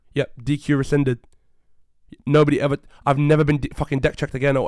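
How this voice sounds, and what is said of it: Raised, angry voice. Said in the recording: “I'm sorry to raise my voice on the fucking podcast ... I was livid”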